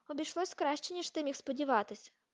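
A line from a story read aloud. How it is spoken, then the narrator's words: Muttered. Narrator (Ukrainian): пробурмотів Гаррі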